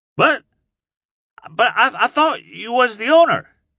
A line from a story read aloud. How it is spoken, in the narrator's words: he stammered